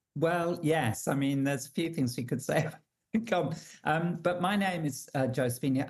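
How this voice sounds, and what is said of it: English accent. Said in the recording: “I'm English, you can tell from my accent,”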